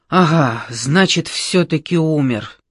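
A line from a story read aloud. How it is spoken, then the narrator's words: Relieved exhale. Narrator (Russian): облегченно выдохнул Ямбых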